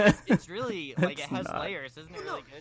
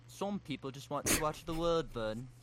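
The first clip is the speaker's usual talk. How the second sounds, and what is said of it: British impression with Liverpool-like accent. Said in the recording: “It's 1 millisecond that it's kind of like a Liverpool accent ... that definitely sound more like John Lennon ... it's supposed to be like John Lennon doing Michael Caine”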